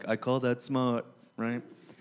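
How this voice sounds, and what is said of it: Imitates another person's voice. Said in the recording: “that Trump impression”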